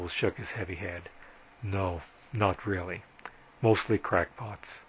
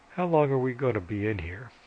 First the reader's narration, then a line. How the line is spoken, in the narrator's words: Vovo yawned and said